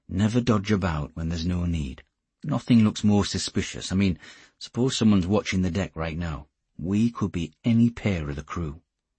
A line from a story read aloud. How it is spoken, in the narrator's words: Geordie said softly